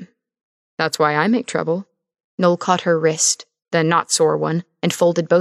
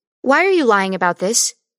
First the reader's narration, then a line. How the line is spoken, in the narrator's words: Christine snapped